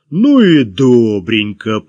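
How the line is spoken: Booming drone. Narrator (Russian): прогудел он

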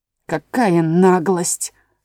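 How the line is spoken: Low rich voice, pie. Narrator (Russian): сказал пирог низким сочным голосом

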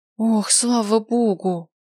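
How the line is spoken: Breathed out with relief. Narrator (Russian): выдохнула Ая

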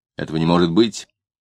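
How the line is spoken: Indignant. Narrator (Russian): добавил возмущенно

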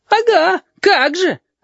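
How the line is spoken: Offended wail. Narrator (Russian): обиженно взвыл Филипп

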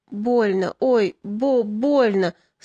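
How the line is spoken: Wounded man moaning. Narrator (Russian): стонал раненый

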